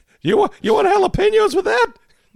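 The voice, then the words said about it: Squeaky nerdy character voice. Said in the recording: “the squeaky nerd voice”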